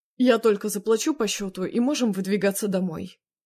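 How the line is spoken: Angry announcement. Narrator (Russian): зло объявил он

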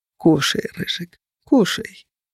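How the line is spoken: Barely audible whisper. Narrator (Russian): едва слышно шептал Феникс

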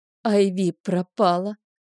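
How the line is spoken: Breathless, into phone. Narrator (Russian): выдохнула в трубку

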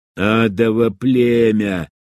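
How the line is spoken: Hissed. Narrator (Russian): прошипел

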